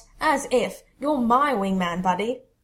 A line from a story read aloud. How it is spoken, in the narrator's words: He scoffs